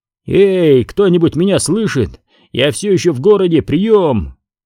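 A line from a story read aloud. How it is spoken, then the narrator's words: Shouting into microphone. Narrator (Russian): прокричал в микрофон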